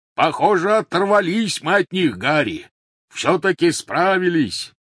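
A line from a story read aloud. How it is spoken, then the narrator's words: Shouting. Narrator (Russian): крикнул Хагрид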